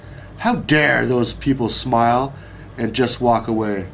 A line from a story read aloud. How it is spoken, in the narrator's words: the baker grumbled